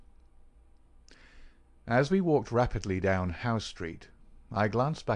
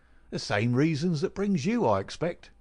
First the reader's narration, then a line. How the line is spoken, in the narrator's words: said Gregson